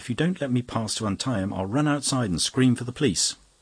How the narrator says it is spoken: cried the young woman

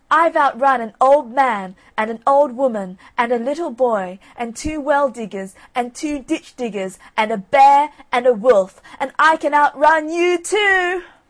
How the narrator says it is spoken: Johnny Cake called out in a very loud voice

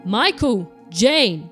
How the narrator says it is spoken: shouted Mr

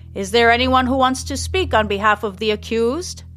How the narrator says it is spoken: shouts Mayor Sandpiper

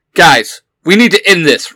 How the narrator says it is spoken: Red Ranger shouted

